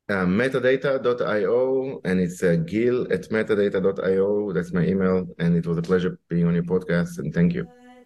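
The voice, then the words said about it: Noticeable non-native accent. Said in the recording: “having a great accent”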